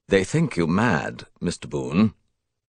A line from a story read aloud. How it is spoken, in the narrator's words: he replied grimly enough